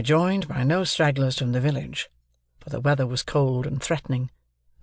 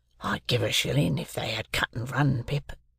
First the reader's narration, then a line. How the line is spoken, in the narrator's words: And Joe whispered to me